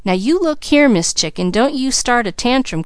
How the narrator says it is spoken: cried Mickey

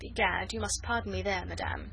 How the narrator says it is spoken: he protested coldly

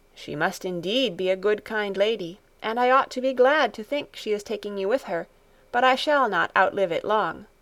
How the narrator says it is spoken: said a little sadly

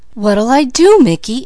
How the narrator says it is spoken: anxiously inquired Peaches

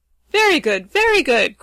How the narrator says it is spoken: cried Ruggedo, rubbing his hands gleefully together

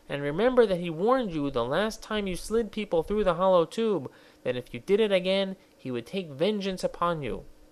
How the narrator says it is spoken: he pleaded

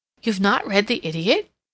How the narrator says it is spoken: she exclaimed

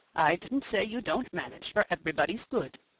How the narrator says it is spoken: said her father, with a quiet laugh

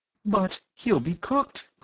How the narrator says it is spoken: cried Phyllis, open-eyed

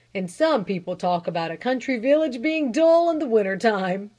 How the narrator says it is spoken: he chuckled

